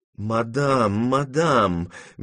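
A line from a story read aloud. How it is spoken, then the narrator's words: Honeyed whisper. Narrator (Russian): медовым голосом шептал бабушке Дегрие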